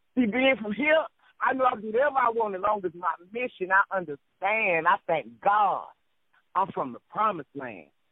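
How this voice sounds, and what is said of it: Southern US accent. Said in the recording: “I like your accent too. You got a nice like south down south accent. ... I'm southern and I'm country”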